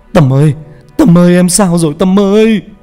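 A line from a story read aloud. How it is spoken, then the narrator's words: Anguished screaming. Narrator (Vietnamese): Hào gào lên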